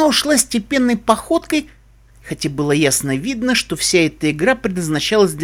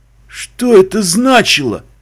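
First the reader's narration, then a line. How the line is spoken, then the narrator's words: Strained, unhappy farmer. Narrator (Russian): выдавил несчастный фермер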